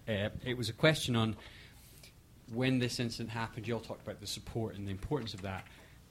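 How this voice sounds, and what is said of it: Scottish accent. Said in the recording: “this fabulous accent ... Scotland”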